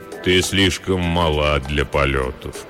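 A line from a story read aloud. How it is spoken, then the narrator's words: Deep soft male voice. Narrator (Russian): произнес высокий человек глубоким мягким голосом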